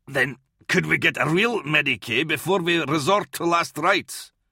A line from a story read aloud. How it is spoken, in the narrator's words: Kalia snarled